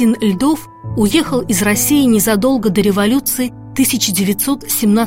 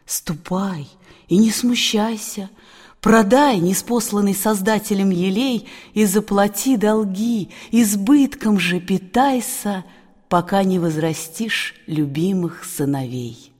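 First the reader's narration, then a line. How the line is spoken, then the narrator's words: Tender reply. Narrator (Russian): ответил ласково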